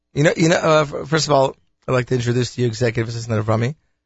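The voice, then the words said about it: Sick, under-the-weather voice. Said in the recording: “as you can tell by my voice, I am a little bit under the weather”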